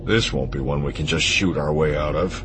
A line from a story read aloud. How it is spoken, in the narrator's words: Han muttered